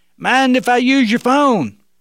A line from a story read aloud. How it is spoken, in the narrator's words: the young man yelled out again